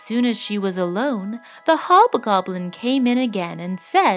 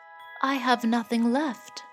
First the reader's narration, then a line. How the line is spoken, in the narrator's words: said the miller's daughter sadly